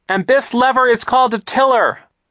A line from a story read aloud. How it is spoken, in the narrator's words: Violet shouted